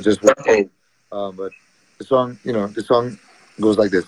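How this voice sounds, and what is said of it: Slightly hoarse voice. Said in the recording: “I'm um, a little hoarse, so excuse my voice”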